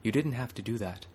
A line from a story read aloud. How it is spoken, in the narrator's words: Dalo said gently